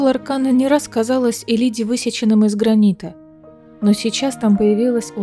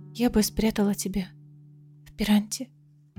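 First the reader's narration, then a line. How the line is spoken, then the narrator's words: Whispered. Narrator (Russian): прошептала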